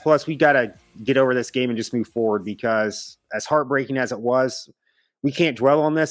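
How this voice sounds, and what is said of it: Hoarse, worn-out voice. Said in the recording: “my voice is kind of shot”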